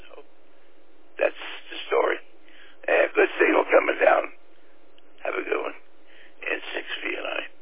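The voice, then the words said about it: Raspy, hoarse voice. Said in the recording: “Excuse my raspy throat. I wear a CPAP machine at night, and it takes me until early afternoon to get rid of the raspiness.”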